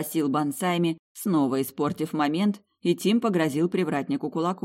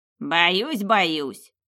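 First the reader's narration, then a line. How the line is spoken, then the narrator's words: Booming laughter. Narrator (Russian): привратник громогласно расхохотался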